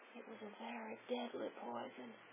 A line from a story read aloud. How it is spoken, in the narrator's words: One-eyed Mu whispered